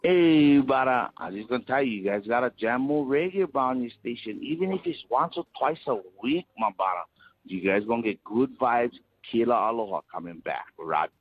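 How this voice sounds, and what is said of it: Hawaiian accent, possibly put on. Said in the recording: “I can't tell if this guy is legitimately from Hawaii or if he is just putting on a terrible accent.”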